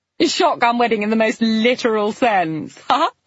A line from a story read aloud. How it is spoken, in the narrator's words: Claire laughed